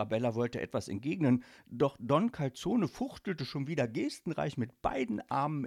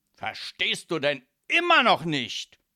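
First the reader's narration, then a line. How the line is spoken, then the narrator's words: Loud call. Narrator (German): rief Don Calzone laut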